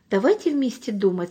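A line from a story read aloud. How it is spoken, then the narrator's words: Calm old man. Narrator (Russian): сказал спокойно дедушка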